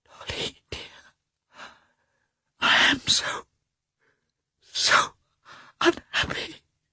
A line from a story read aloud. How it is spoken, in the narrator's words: she whispered guiltily